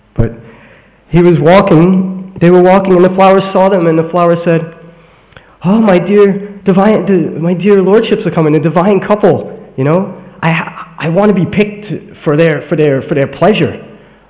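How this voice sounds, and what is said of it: Brooklyn accent. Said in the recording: “my English, you know, Brooklyn accent comes through when I say flower and caw and stuff like that”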